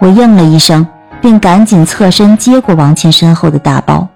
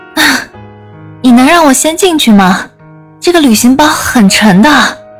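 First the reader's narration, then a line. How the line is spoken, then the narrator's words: Wry bitter laugh. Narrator (Chinese): 王倩 苦笑道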